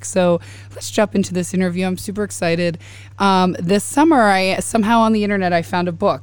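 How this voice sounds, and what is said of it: Crackly, hoarse voice. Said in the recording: “excuse my voice. It's a little crackly. I lost it last week, and I'm just slowly getting it back.”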